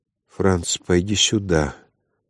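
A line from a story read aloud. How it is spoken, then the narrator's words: Flat expressionless call. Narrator (Russian): позвала все тем же невыразительным голосом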